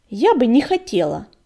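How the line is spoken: Sharp reply. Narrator (Russian): Резко ответила кошка

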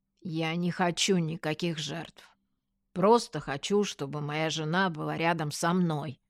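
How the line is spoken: Loud bark. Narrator (Russian): гаркнул Вадик

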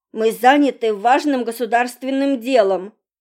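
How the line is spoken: Barking. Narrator (Russian): рявкнул Володька

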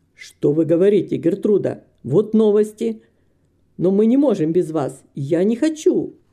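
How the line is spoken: Exclamation. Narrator (Russian): воскликнул мистер Грэм

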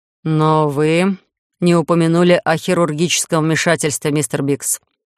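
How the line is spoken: Grim. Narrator (Russian): мрачно подытожил комиссар

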